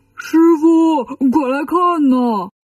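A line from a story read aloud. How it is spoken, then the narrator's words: Shouting. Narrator (Chinese): 八戒喊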